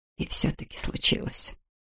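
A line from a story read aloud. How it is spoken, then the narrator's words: Whispering. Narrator (Russian): прошептала Нина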